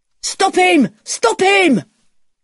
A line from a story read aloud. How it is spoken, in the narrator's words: someone shouts